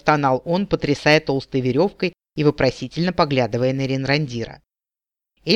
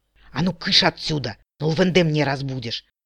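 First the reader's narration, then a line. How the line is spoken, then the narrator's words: Whispered scolding. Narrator (Russian): шепотом прикрикнул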